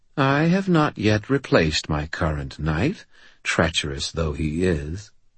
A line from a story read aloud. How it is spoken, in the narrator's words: she purred